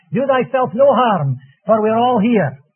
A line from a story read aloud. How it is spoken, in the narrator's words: Paul, with wonderful promptitude, called out